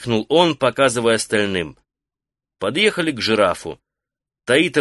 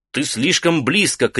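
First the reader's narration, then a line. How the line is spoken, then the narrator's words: Shouted. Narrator (Russian): крикнул он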